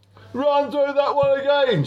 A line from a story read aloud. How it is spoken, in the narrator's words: shouted Groggy between belches